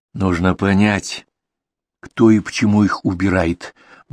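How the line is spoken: Gloomy. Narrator (Russian): мрачно произнес Дронго

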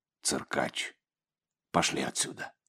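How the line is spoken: Quiet speech. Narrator (Russian): Отец Егорий негромко произнес

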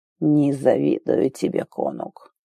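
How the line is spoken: Muttered into ear. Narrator (Russian): пробормотал Азар Роден на ухо

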